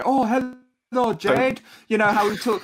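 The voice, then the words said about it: Jackie Chan impression. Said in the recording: “I'm allowed to also do an impression of Jackie Chan.”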